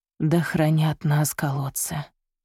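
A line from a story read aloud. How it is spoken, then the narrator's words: Breathy exhale. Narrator (Russian): выдохнула монахиня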